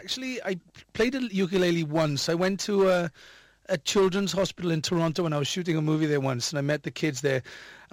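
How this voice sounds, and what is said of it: Welsh accent. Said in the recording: “it's lovely that you haven't lost that Welsh accent of yours.”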